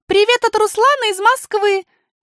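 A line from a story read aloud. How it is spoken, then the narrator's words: Shouted after someone departing. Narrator (Russian): крикнула Алиса вслед уплывающему дельфину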